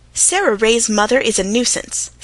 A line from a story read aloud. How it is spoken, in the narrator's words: snapped the Story Girl